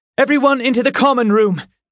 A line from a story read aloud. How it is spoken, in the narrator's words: she shouted